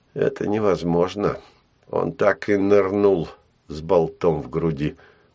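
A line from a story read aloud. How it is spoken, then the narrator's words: Through gritted teeth. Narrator (Russian): процедил Гай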